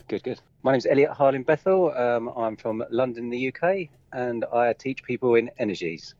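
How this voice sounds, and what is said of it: English accent, Kent or Essex. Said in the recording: “You've got a great accent ... you have a very cool accent. It's not a typical English accent ... I'm actually from Kent, but a lot of people think it's from Essex.”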